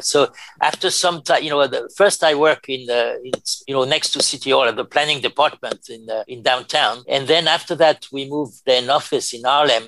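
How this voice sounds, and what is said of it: Hard-to-place accent. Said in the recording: “they could not identify me in a box because of my accent”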